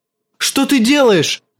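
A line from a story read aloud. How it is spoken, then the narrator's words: Shout. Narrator (Russian): закричал он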